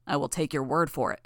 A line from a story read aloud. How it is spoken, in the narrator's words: Lung said